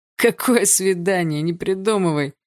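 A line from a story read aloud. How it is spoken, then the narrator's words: Hoarse laugh. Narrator (Russian): хрипло рассмеялся парень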